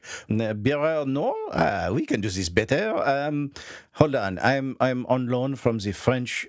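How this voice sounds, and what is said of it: Put-on French accent. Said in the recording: “French accent”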